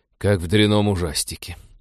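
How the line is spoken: Snort. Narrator (Russian): фыркнул Вениамин

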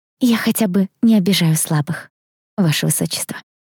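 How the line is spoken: Sweet angelic voice. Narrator (Russian): отозвалась я ангельским голосочком

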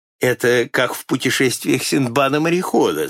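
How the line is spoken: Laughing. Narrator (Russian): засмеялся я

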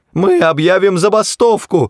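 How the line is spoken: Yelling. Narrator (Russian): завопил Врумфондель

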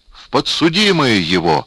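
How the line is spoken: Wailing shout. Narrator (Russian): взвопил Булатов

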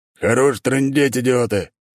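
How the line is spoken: Boss barking. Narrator (Russian): рявкнул босс

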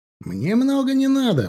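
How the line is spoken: Exclaiming. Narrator (Russian): воскликнул Марио

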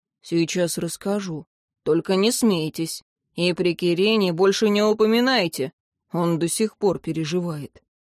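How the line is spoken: Undertone promise. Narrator (Russian): Тьен вполголоса пообещал

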